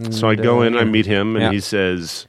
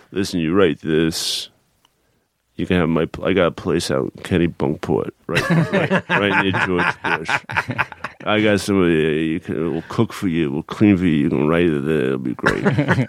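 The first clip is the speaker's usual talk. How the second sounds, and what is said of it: Imitates another person's voice. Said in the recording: “My Jerry impression. Everyone does.”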